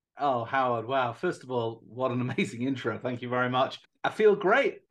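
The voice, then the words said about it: British accent. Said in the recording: “originally from the United Kingdom, as you can tell from the funny accent”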